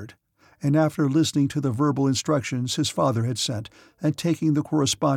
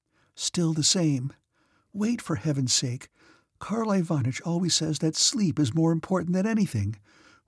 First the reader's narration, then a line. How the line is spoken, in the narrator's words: whispered Princess Mary with a sigh